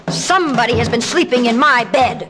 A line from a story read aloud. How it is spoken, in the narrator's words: He roared even growlier than before